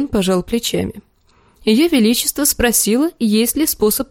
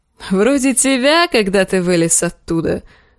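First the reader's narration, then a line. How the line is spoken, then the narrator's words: Laughing. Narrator (Russian): засмеялся Дарио Нахарис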